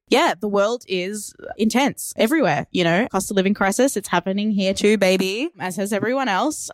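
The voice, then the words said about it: Australian accent. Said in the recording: “Melbourne, Australia. You can try and copy the accent if you want to.”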